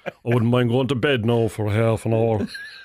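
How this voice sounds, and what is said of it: Put-on Cork accent. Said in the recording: “the accent starts coming by ... I can know Cork accent now”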